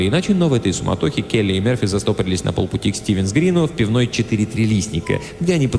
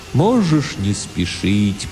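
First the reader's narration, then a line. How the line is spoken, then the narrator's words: Strange sad distant philosophical. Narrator (Russian): произнес Тимулки очень странным, грустным, далеким, философическим голосом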